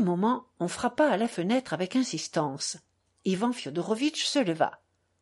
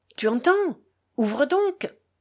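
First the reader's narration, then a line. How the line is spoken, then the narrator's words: Exclaiming visitor. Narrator (French): s'écria le visiteur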